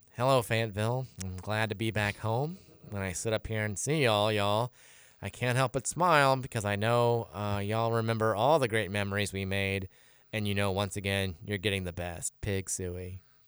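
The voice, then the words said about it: Impression of Bobby Petrino. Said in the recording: “in your best Bobby P voice”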